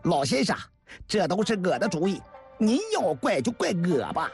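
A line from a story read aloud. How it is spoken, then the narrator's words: Shouting. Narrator (Chinese): 张杰也嚷了起来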